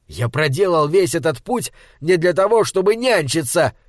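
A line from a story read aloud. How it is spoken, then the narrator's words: Shouting. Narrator (Russian): закричал Малаки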